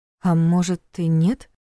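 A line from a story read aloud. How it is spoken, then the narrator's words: Timid suggestion. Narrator (Russian): робко предположила Саша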